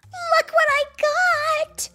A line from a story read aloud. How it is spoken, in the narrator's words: She screamed